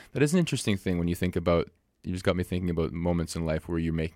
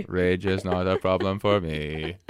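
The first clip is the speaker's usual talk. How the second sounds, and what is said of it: Flat robotic voice. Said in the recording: “That's my robot voice.”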